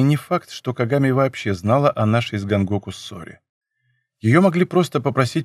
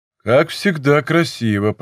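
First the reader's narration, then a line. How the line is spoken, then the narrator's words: Deep grandfather's voice. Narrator (Russian): произнес глубоким голосом ее дед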